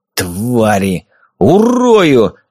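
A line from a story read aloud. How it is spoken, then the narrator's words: Growl. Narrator (Russian): рыкнул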